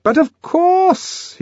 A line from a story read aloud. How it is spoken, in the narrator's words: he cried, making up for his first hesitations with an excess of noisy cordiality